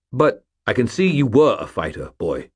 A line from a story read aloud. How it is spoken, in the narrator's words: Stuart said, his voice harsh